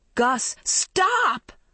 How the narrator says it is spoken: Maggie shrieked

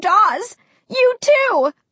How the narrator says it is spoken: I cried, so disappointed, so confused, so scared

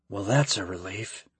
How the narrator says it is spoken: Kyle muttered, glad his theory worked

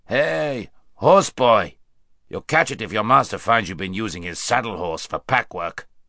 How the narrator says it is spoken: with a rough laugh, saying

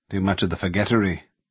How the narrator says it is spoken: he muttered in a way that seemed to be talking to himself

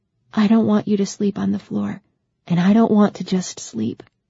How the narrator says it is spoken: she said softly

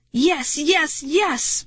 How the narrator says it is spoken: shouting like a maniac

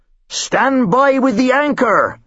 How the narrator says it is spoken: the captain called out

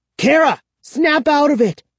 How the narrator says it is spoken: I cried

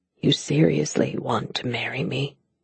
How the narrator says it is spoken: He whispered

